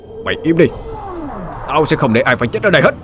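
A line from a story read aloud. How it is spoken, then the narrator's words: Shouting. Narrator (Vietnamese): Anh hét lên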